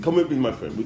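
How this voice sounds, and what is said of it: Imitated African accent. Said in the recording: “African. ... Like, that accent.”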